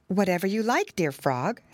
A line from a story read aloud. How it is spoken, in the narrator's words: said she